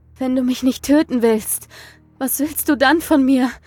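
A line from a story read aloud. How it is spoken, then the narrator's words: Gasping. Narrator (German): keuchte ich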